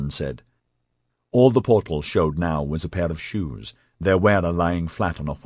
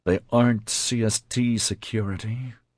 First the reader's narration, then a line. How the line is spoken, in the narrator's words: Adam said grimly